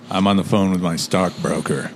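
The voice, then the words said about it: Deep Morgan Freeman-like voice. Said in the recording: “That was a bit of a Morgan Freeman little tone you had there. It's quite nice, man. ... That sounds amazing.”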